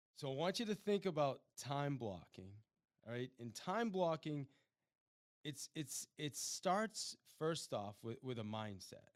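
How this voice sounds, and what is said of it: Strained, failing voice. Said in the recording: “I am losing my voice.”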